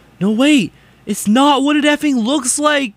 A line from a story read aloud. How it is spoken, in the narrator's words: he shouted